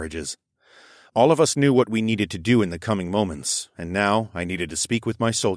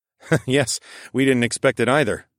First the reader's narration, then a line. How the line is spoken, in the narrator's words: chuckled